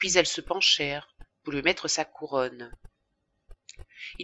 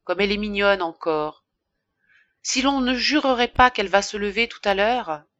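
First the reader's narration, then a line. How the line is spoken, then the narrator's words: Sighing innkeeper. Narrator (French): disait en soupirant l'aubergiste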